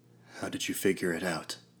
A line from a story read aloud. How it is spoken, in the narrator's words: I asked